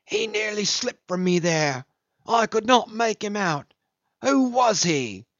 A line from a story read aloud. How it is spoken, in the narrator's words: jubilating and sneering